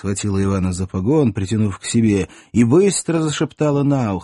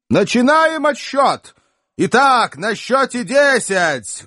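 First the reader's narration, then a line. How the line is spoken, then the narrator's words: Loud loudspeaker announcement. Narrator (Russian): громко оповестили динамики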